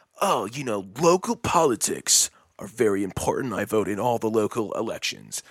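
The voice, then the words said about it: Mocking impression of a political person. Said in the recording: “That's my impression.”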